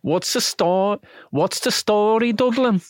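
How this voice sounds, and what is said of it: Poor attempt at Dublin accent. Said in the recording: “Almost Welsh ... It kind of sounds like no. Liverpool ... You have a tin ear ... This is how you hear different accents ... Oh, it's getting worse”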